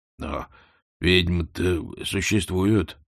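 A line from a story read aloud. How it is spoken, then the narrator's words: Uncertain. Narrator (Russian): неуверенно отозвался кузнец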